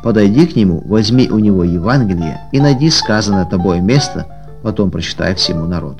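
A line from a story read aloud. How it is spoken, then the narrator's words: Whisper. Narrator (Russian): как будто кто-то шепнул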